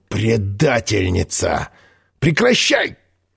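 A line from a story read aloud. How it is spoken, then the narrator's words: Hoarse croak. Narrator (Russian): хрипнул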